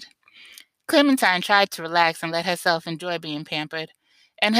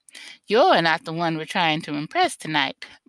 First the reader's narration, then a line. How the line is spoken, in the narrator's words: said with a dry laugh